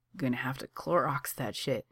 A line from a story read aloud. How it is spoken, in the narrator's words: he adds, mumbled